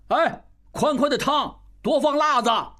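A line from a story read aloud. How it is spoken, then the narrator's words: Shouting. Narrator (Chinese): 应余大喊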